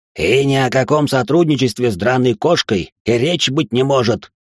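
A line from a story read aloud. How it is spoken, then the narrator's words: Sharp exclamation, dragon. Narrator (Russian): вновь резко воскликнул красный дракон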